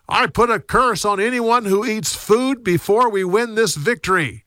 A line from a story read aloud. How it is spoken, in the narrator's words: he shouted